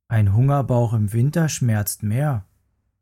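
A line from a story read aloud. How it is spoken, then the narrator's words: Plain. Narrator (German): sagte Mama Bär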